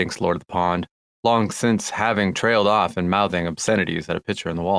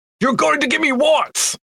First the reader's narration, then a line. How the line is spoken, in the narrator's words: shouts LOTP